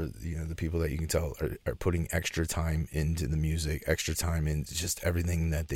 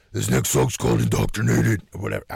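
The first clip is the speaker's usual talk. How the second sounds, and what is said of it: Death metal growling voice. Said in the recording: “the Nathan Explosion shit, where they talk like with the death metal voice in between the song ... that's a terrible impression”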